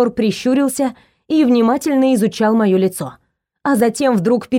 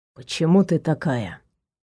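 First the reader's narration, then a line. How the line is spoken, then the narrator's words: Soft question. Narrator (Russian): мягко спросил Наг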